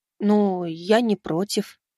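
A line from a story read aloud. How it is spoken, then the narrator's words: Shy and unsure. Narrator (Russian): все еще стеснительно и неуверенно говорил Леонид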